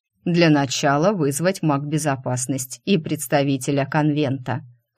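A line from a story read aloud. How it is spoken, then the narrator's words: Snorting. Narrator (Russian): хмыкнул Бастерхази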